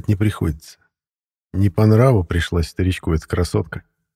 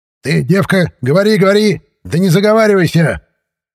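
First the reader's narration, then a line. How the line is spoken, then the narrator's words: Loud barking shout. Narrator (Russian): Гаркнул он так, что из листвы у него над головой вылетела всполошившаяся птица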